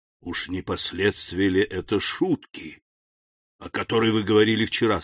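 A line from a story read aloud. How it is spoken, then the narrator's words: Hoarse. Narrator (Russian): сказал он хрипло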